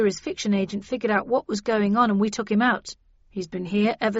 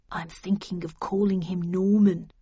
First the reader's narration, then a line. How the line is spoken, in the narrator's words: murmured Perkins